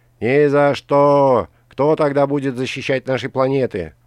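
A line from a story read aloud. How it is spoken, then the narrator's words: Yelling. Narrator (Russian): вопил кто-то третий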